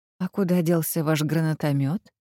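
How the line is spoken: Suspiciously weak voice. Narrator (Russian): подозрительно слабым голосом спросил он

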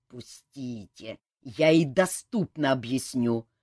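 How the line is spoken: Growl. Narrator (Russian): прорычал Кантор

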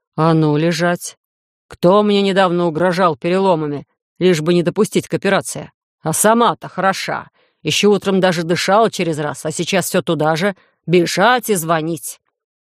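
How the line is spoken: Angry growl in ear. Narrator (Russian): Олаф буквально рычал мне на ухо, не собираясь успокаиваться

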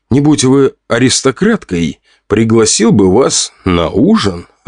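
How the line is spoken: Laughing. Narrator (Russian): рассмеялся я

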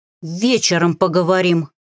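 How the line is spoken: Through gritted teeth. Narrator (Russian): процедила сквозь зубы я

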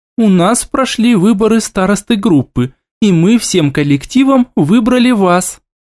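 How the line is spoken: Cheerful, confident. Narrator (Russian): произнесла так бодро и уверенно

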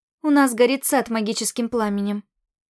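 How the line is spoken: Calm explanation. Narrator (Russian): спокойно пояснила я

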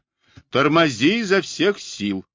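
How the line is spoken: Yelling. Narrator (Russian): Блуи заорал себе

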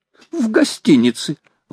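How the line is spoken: Exclaimed. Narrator (Russian): воскликнул Паганель

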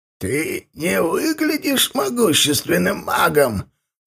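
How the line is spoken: Creaky reply. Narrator (Russian): проскрипел тот в ответ

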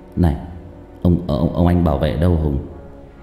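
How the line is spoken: Stammering. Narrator (Vietnamese): Tôi lắp bắp mãi mới lên tiếng

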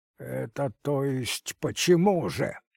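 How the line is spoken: Increasingly irritated question. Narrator (Russian): еще более раздраженно спросил Звягинцев, плохо воспринимавший шутки и не переносивший балагурство Лопахина

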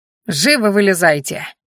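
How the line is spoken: Annoyed growl. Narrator (Russian): зарычал раздосадованный лекарь на подчиненных

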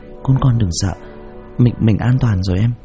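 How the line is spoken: Soft gentle voice. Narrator (Vietnamese): giọng nhỏ nhẹ

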